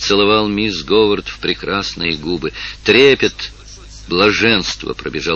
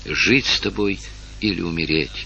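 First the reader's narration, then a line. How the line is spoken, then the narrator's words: Female whisper. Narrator (Russian): прошептала она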